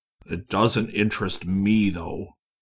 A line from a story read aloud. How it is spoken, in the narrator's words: Stephen said angrily